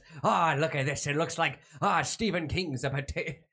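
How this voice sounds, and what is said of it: Put-on Irish accent. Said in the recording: “You can't do an Irish accent. ... without a racist impression by”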